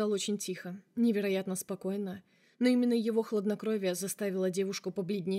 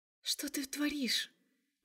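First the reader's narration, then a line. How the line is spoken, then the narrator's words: Hiss. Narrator (Russian): прошипела она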